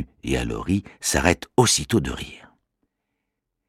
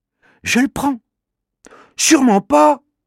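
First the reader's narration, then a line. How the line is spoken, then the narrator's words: Exclaims. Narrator (French): s'écrie Manu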